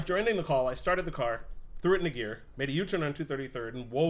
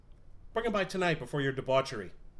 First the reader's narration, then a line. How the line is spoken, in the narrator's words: chuckled